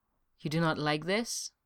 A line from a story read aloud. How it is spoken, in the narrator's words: Esca murmured, his lips deliberately closed against the sharp-scented patch of dark hair